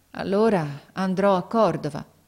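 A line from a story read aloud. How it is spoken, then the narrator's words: Resigned sigh. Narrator (Italian): Il ragazzo mise un sospiro, poi disse con rassegnazione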